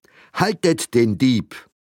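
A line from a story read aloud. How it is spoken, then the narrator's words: Startled, angry shout. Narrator (German): Erschrocken, aber auch erbost, rief ihm Frau Huber hinterher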